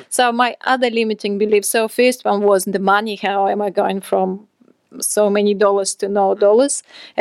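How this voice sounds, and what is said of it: Foreign accent. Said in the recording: “I've got an accent, I'm an immigrant”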